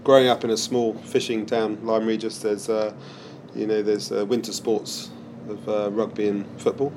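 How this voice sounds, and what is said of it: Traces of English accent. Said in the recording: “some traces of an English accent”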